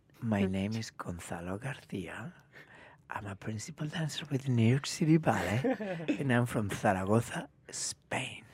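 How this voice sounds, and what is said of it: Smooth, sexy radio voice. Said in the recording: “What a radio voice. ... Antonio Banderas. ... The sexy voice.”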